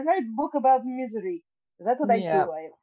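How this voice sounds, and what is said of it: Bad put-on Russian accent. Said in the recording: “my bad Russian accent”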